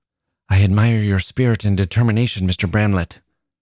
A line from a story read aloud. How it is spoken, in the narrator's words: said Emily Minton, speaking very quickly